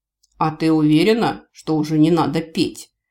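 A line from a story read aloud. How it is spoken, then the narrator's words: Speaking through gritted teeth. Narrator (Russian): сквозь зубы процедил человек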